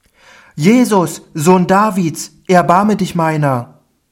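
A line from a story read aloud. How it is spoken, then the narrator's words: Loud cry. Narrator (German): rief er laut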